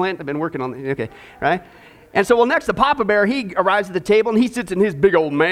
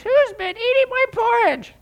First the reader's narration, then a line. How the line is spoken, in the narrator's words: he squeaks